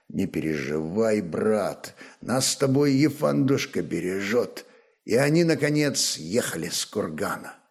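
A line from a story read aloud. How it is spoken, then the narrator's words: Quiet. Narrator (Russian): Рарок тихо молвил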